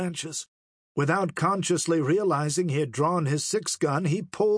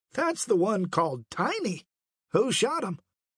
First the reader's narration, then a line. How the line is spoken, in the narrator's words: he exclaimed excitedly